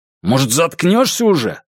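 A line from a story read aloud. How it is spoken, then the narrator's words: Bark. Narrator (Russian): рявкнул я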